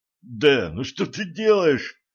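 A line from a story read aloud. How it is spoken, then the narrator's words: Groan. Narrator (Russian): простонал Алекс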